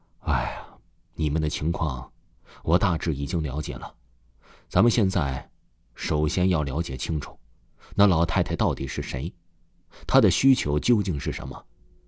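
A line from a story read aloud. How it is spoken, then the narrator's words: Sighing. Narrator (Chinese): 大师叹了口气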